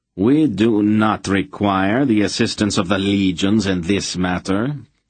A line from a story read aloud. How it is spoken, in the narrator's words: the knight said coldly